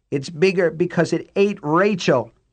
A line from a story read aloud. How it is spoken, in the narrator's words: Laverne cried and began to scream again